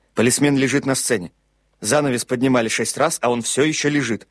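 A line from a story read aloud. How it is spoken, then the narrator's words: Clipped, abrupt. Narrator (Russian): Наконец Панталоне вернулся и отрывисто сказал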